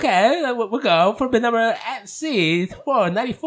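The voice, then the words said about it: Bad put-on British accent. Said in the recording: “I did the fucking auction in a British accent. ... it was like fucking horrible ... You totally sound but, like Borat ... it sounded like Borat, but I was trying to go British, but my fucking Mexican accent gets in the way.”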